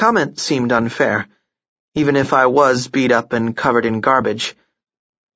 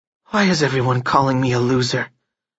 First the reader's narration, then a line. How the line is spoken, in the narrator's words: I asked weakly